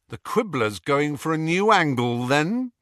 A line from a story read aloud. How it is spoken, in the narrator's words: Harry asked coldly